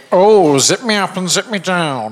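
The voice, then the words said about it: Impression of a comedy film character. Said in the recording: “best impersonation of Kenneth Williams' character, Dr. Soper, in Carry On Camping ... That's the one to beat so far.”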